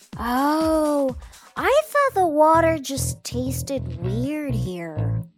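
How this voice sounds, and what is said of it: Imitates a drunk person's slurred voice. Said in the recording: “my impression of a drunk person? ... I was just trying to do what I see in movies”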